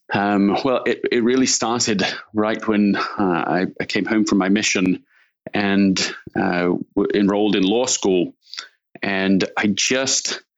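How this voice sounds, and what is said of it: English accent, London and Yorkshire. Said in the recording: “your accent doesn't sound too Menlo Parkian... I'm from London, England originally, and grew up in Leeds in Yorkshire in the north of England”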